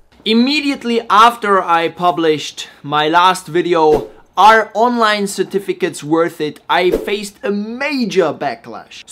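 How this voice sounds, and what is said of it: Slavic accent. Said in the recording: “a funny Slavic accent”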